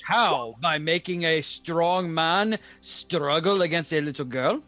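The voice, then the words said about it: Put-on accent of a character. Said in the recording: “I don't know why I'm doing his accent.”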